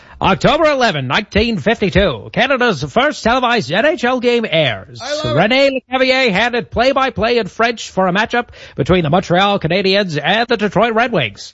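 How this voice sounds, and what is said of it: Old-timey hockey radio announcer voice. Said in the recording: “your old-timey radio voice for hockey”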